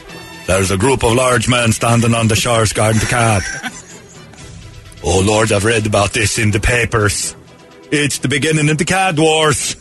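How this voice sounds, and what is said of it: Put-on Icelandic accent. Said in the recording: “You've been practicing that Icelandic accent? ... That's close.”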